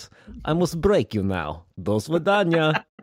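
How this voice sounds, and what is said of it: Poor put-on Russian accent. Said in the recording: “Russian accent ... did a very poor Russian accent”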